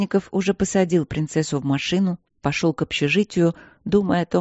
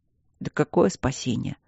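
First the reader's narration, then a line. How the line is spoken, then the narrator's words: Gloomy, huge man. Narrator (Russian): мрачно произнес ее огромный друг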